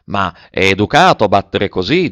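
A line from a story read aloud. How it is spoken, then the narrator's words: Plain. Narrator (Italian): disse Nanon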